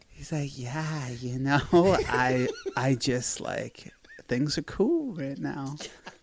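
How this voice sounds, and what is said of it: Imitates a spaced-out, stoned, babyish voice. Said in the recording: “talks more like a baby who's on weed ... I did a very good imitation,”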